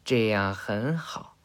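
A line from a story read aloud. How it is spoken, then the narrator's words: Soft whisper in ear. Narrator (Chinese): 施成真啊…在他耳边轻声说道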